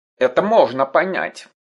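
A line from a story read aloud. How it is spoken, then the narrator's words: Grumbling. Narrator (Russian): проворчал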